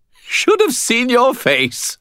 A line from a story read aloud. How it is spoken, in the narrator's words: Bob said, still twitching with muffled laughter